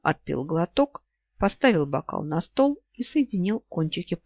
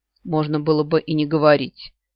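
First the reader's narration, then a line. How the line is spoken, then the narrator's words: Snort. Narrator (Russian): не удержался и фыркнул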